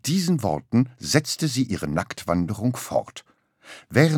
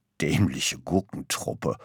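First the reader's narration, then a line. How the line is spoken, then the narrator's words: Grumbled. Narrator (German): brummte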